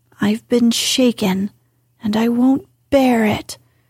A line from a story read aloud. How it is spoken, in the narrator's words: growled Lori indignantly